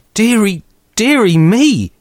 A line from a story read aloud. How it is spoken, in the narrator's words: cried my mother